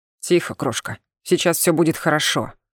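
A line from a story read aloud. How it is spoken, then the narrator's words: Familiar growling voice. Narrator (Russian): прорычал знакомый голос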